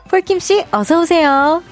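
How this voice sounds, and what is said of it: Dreamy voice with audio effect. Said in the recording (Korean): “청초한 목소리로 ... 이펙트 같은 거 먹인 거예요? ... 어 맞아요.”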